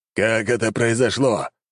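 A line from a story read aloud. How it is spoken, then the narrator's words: Growl. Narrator (Russian): зарычал он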